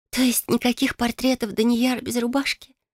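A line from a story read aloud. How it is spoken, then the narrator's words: Sighing female dwarf. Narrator (Russian): вздохнула гномка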